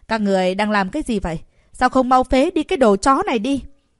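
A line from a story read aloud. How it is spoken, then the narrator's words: Irritated, hurried yell. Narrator (Vietnamese): Lục Quan Hành khó chịu, vội vàng hét lên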